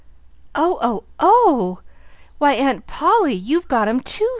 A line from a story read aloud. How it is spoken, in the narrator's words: cried rapturously, dancing round and round